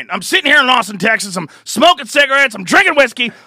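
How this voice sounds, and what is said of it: Imitates another person's voice. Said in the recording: “as good an impersonation of anyone that anyone has ever done”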